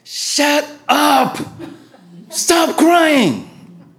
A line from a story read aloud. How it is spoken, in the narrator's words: I yelled